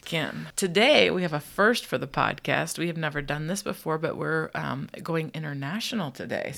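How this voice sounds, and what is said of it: Nasal, congested voice from cold. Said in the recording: “We've both had a cold this week... if we sound a little nasally and disgusting”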